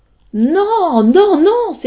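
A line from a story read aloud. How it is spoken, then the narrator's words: Exclaimed. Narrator (French): s'écria Molière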